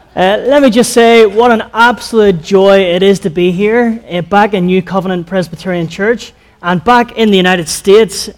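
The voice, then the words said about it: Unfamiliar non-local accent. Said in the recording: “my accent is a little bit different than what you might be used to hearing”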